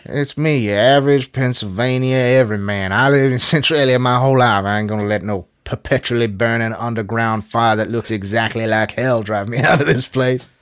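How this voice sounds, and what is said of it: Put-on small-town regional accent. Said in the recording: “That's not a Pennsylvania accent ... It is not a Pennsylvania accent. Hey, it might be a Centralia accent”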